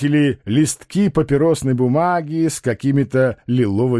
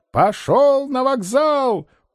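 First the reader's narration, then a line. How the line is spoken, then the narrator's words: Shouting at full strength. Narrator (Russian): Толмудовский что есть силы, закричал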